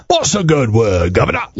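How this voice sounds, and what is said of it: Put-on chimney sweep English accent. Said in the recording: “how many different accents are in Britain. Like, I mean, you can do, like, chimney sweep.”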